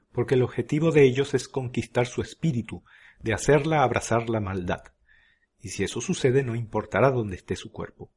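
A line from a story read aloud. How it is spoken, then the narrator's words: Plain answer. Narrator (Spanish): contestó Easton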